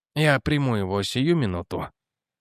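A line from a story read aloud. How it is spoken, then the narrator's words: Muttered. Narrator (Russian): пробормотал Бэнкс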